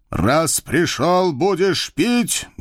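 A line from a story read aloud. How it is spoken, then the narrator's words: Menacing bark. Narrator (Russian): грозно рявкнул он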